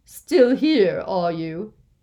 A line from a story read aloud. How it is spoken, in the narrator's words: she barked